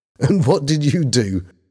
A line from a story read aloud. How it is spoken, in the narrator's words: Bobby said, laughing